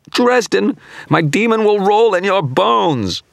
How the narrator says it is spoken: broke off into a scream of anguish as my counterspell began to tear the image sending apart

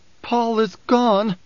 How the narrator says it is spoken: Alia's voice was choked

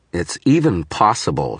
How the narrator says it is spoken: snarled

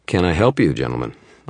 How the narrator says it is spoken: asked

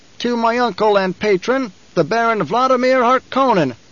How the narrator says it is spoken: Fade Rotha shouted

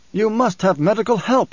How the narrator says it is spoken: he snapped

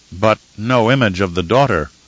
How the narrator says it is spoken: Romber said

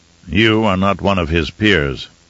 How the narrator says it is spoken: Raban growled

